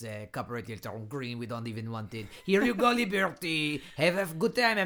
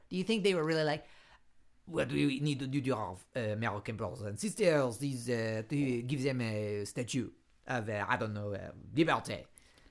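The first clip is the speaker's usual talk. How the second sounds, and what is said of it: Put-on French accent. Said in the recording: “I like your French accent.”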